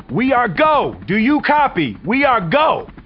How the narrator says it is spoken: And then he shouts

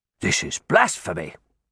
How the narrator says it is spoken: one said angrily

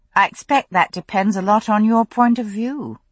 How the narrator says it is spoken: I said rather dryly

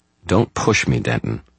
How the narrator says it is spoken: Murphy said, her voice hot

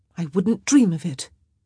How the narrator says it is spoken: she said tightly

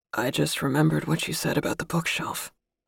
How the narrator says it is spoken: he said in a gravelly voice

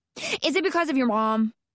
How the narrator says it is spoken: Hannah blurted out

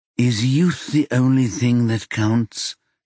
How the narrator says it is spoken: she drawled

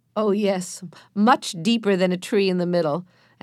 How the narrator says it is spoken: answered Joe, laughing

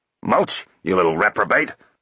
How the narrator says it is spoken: roared Root

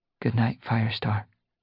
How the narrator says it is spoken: she murmured

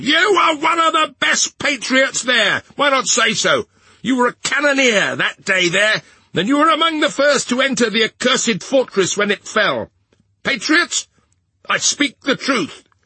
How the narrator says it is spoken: an excited woman screeched from the crowd

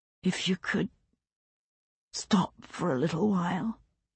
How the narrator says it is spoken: he whispered

